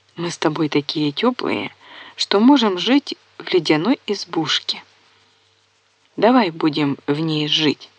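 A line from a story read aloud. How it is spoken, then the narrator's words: Whisper. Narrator (Russian): шепнула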